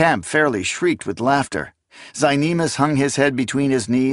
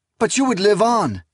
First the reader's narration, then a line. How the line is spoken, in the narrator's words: Esmenet cried out